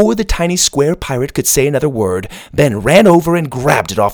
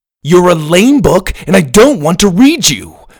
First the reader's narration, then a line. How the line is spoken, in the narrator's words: Ben shouted